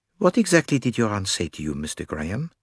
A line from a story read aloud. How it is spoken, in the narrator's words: asked Poirot in his most silky tone